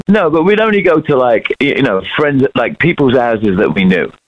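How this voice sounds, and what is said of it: British accent. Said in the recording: “he has a British accent.”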